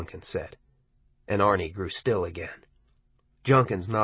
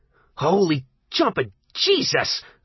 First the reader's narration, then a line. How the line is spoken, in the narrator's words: Arnie almost screamed